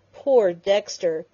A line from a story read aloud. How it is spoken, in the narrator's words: Penny groaned, covering her convulsed face with her hands